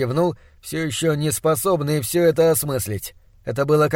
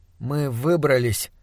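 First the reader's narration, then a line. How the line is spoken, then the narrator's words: Uncertain, seeking confirmation. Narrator (Russian): неуверенно сказал я, желая получить подтверждение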